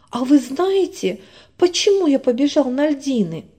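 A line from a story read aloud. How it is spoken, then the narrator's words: Excited question. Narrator (Russian): снова взволнованно спрашивал Миша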